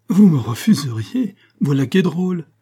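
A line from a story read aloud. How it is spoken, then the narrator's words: Laughing cry. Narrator (French): s'écria Lataste en riant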